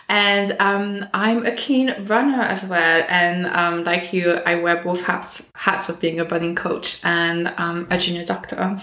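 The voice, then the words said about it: French accent in English. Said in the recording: “I'm French... I still have the accent”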